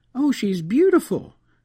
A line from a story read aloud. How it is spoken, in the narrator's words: exclaimed Ruby